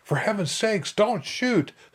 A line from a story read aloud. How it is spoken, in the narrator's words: The terrified mobber turned and fled, screaming